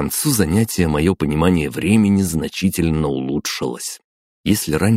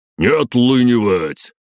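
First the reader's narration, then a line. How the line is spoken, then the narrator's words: Loud barking shout. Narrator (Russian): гаркнул Световид и велел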